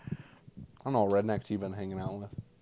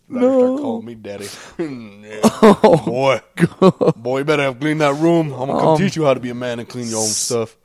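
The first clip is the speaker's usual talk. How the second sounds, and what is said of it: Gruff redneck tough-guy dad voice. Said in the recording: “That sounds like a mix of Mr. T and Kratos. ... You sound like a redneck.”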